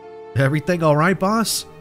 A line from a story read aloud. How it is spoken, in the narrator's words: called out